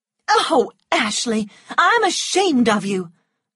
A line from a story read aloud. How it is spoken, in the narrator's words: cried Melanie